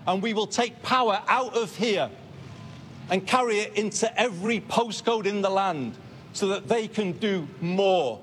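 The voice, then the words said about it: Northern English accent. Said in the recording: “Burnham is the first Prime Minister with a North of England accent in 50 years”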